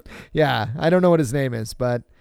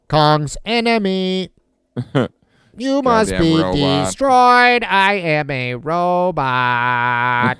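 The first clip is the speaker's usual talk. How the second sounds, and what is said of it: Robot voice. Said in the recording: “That was my robot voice.”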